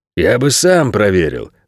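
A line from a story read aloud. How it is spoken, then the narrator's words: Snorted. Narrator (Russian): фыркнул Ричи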